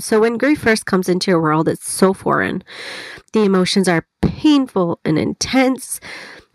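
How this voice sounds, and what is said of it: Congested voice from a cold. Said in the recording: “I have a cold. So if my voice sounds funny, that is why. ... to see if my voice would start to sound a little better, but it hasn't.”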